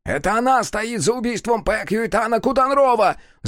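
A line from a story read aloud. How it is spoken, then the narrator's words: Shouting. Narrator (Russian): закричал Нода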